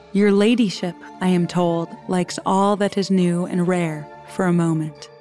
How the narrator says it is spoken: he said

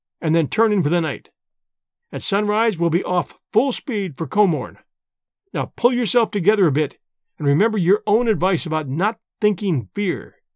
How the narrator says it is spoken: I said firmly

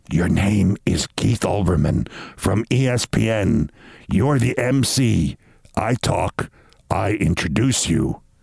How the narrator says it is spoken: Giuliani whispered to me

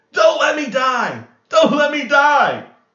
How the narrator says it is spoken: he would just go into a rage, screaming

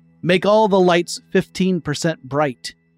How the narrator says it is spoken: he called out

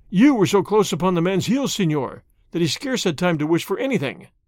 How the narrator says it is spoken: Fray Felipe said

